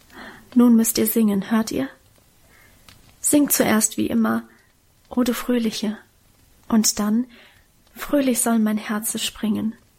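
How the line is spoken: Whisper. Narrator (German): flüsterte sie

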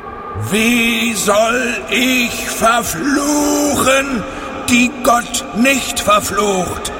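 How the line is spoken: Loud, far-carrying call. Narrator (German): rief er, und seine Stimme war weithin über das Land zu hören

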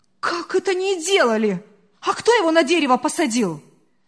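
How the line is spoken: Indignant. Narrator (Russian): возмущенно продолжала хозяйка

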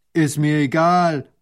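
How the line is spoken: Farmer calling out. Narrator (German): ruft der Bauer

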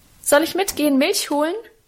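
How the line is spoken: Cheerful call. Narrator (German): rief ich ihm munter zu

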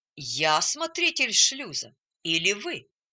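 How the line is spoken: Calm objection. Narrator (Russian): спокойно возразил

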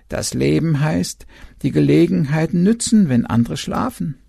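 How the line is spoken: Croak. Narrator (German): der Uhu krächzte

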